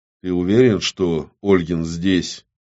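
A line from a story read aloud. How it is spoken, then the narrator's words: Quiet question. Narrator (Russian): негромко спросил Классик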